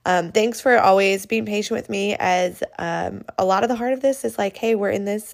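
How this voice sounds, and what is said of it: Hoarse, strained voice. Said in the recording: “As you can probably still tell in my voice, I woke up yesterday and I almost had no voice whatsoever. Believe it or not, it was worse than what is coming through today... how terrible my voice sounds”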